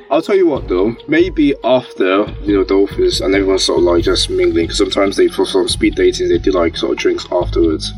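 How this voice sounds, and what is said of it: Strongly pronounced accent. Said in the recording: “Your accent is coming out so bad... Your accent is coming out like it's so pronounced right now.”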